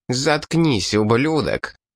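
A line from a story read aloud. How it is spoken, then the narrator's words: Angry. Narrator (Russian): зло произнес бонтанец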